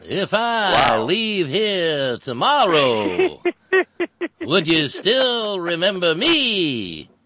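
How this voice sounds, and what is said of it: Sings imitating another person's voice. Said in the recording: “I sing it with a young Dylan style ... my terrible Dylan impression ... That's not bad. That's not bad.”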